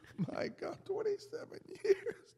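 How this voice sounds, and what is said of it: Choked up, crying voice. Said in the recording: “I'm crying, man. I'm getting choked up.”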